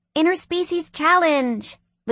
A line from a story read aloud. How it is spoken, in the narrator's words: Luisa yelled